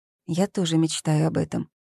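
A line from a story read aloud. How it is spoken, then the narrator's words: Quiet. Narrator (Russian): тихо произнесла Зои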